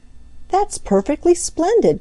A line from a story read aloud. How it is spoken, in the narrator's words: cried Peter